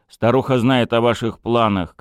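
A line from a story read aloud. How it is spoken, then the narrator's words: Shouted reply. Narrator (Russian): крикнул в ответ Итан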